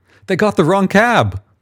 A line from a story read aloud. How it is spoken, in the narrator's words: Michael shouts